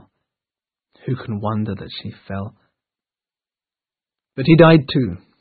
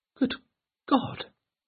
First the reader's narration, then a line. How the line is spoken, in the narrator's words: exclaimed Eleanor